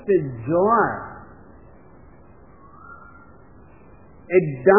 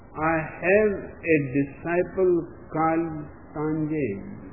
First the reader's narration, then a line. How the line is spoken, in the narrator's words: said Kokutsu